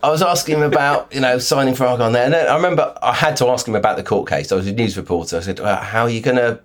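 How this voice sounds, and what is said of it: Usual voice. Nothing is said of it.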